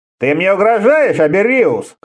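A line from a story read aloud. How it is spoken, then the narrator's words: Shouted. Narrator (Russian): крикнул кофеец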